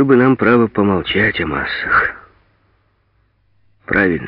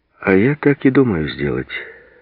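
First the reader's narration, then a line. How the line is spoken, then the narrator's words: Calm. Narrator (Russian): спокойно сказал Сурков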